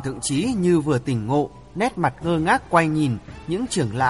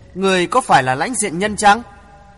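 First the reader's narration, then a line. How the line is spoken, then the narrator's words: Smiling. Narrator (Vietnamese): người thiếu phụ mỉm cười bảo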